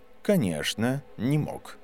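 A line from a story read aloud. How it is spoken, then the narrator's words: Calm. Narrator (Russian): спокойно ответил профессор Квирл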